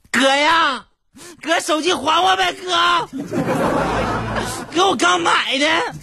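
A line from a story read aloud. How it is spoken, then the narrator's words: Shouting from behind. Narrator (Chinese): 小偷搁后边喊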